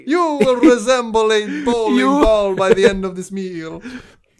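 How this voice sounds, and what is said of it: Put-on Italian accent. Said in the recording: “speaking like an Italian”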